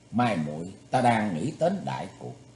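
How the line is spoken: Serious after smiling. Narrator (Vietnamese): mỉm cười một lúc rồi nghiêm túc nói

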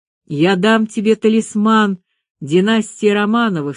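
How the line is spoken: Plain. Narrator (Russian): сказал Петр

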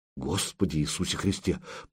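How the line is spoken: Muttering. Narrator (Russian): пробормотал Илья

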